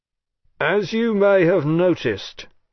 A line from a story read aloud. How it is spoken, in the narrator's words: he said, pitching his voice above the music